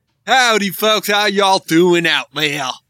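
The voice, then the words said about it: Mixed English and Australian accent. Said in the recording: “What accent was that? ... A little bit English and a little bit Australian ... at the end”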